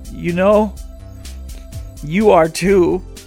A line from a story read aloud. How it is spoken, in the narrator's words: he said hesitantly